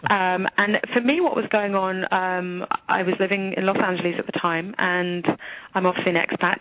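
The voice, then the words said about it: English accent. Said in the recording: “you can tell by the English accent”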